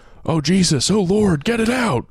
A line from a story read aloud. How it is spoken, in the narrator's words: Kira just starts screaming